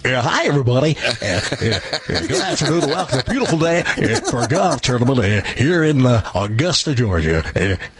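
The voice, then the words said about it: Generic sportscaster announcer voice. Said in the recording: “generic sportscaster impression ... it makes it sound like, you know, most every sportscaster”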